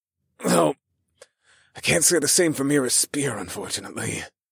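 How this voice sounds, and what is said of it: Raspy, chuckling voice. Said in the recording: “I chuckled in a raspy voice.”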